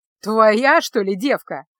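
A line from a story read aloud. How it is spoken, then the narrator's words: Shout. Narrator (Russian): выкрикнул он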